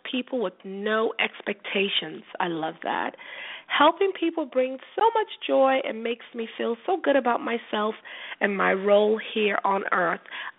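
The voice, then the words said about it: Voice affected by a cold. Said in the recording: “if you've noticed my voice, I mean, it's raining, it's cold, the weather has changed, and I actually caught a cold. So excuse my voice ... as you heard, I'm suffering from a little cold”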